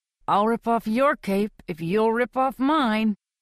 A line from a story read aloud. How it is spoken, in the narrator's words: he says through gritted teeth